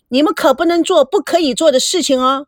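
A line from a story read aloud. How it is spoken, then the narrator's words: Reluctant shout. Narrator (Chinese): 赵美娇不情愿的被拉着走，一边朝屋里喊着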